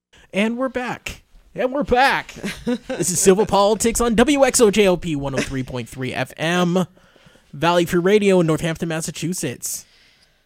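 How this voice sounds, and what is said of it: Announcer-style radio voice. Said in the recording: “I like my radio voice.”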